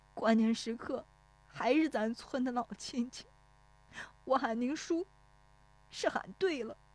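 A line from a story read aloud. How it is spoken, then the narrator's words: Tearful, choked voice. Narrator (Chinese): 石有福……顿时觉得一汪热泪涌出来，带着哭腔说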